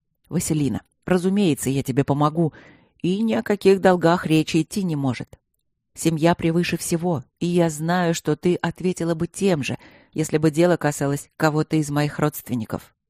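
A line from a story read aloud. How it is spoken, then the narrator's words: Brief hesitation, then calm. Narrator (Russian): Поколебался какую-то долю секунды и спокойно сказал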